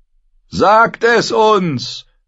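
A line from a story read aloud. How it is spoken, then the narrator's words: Someone calling out. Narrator (German): rief jemand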